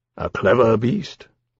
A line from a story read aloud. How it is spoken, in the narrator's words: Lawrence said dryly